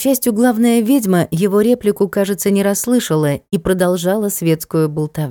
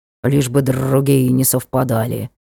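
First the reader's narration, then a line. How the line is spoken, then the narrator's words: Grumbling. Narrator (Russian): пробурчал ворон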